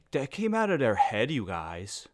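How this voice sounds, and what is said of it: Character voice parroting speech. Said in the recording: “Is that an impression of me? ... that is my impression of just a person. That was just me doing a character. ... parrot back what I had just said in a different voice”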